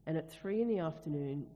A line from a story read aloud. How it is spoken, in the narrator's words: Jesus cried out in a loud voice